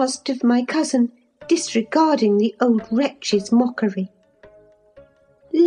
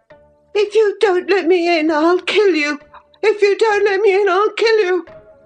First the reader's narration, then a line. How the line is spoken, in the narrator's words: rather shrieked than said